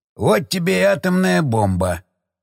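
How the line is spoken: Snorting. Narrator (Russian): хмыкнул Шестаков

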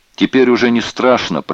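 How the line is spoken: Shouted into ear. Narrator (Russian): прокричал он Бергеру прямо в ухо

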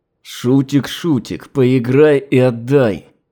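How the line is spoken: Restrained words through teeth. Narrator (Russian): процедил, нечеловеческим усилием воли, смирив соблазн

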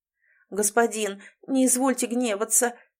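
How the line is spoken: Fawning mumble, ghost. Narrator (Russian): присмыкаясь, промямлил один из призраков

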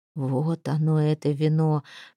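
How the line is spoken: Whisper. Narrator (Russian): прошептал он

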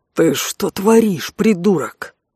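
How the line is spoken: Scolding hiss. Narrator (Russian): зашипел Алан в лицо лыбящемуся Алвису, чувствуя себя при этом женой, встречающей мужа после мальчишника

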